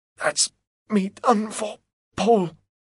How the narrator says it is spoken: he groans, because of the pain

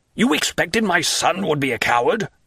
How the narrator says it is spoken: cried the Count

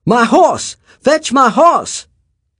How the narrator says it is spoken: the white man was shouting

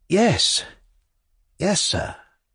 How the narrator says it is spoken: murmured Pavel, who had suddenly become timid to a painful degree

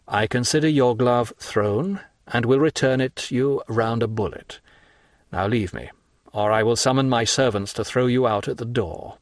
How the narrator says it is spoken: said he in a solemn tone

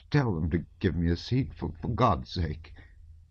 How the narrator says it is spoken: He asked in a hesitating, piteous voice

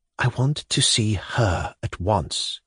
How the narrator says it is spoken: whispered, impatient

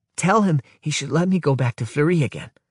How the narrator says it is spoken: answers Gizuka excitedly

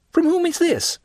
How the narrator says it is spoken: said he eagerly

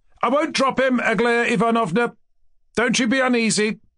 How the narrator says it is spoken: Kolya had shouted with the utmost readiness

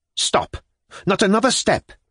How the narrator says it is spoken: he cried

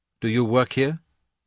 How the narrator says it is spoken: Kay asked

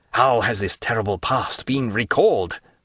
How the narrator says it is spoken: cried Villefort

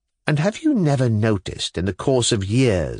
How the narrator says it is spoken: said I

